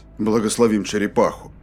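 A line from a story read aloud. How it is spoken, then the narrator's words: Muttered. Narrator (Russian): Пробормотал Рейнольдс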